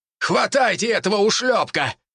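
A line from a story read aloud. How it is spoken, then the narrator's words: Shout. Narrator (Russian): крикнул Борисов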